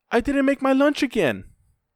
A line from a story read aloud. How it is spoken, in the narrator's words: She called out